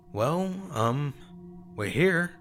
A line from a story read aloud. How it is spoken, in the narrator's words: I said, twisting my fingers nervously in my lap